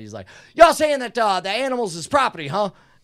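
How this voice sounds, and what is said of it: Put-on East Texas accent. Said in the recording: “it's an affectation, the East Texas accent.”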